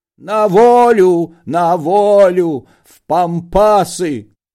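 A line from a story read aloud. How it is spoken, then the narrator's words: Anguished shout, sick man. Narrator (Russian): больной страдальчески закричал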